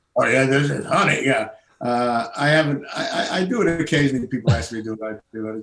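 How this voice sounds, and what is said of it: Puppet character voice. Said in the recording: “do the Earl voice ... I can already hear it coming out when you're telling us these stories. ... He sort of talked like this”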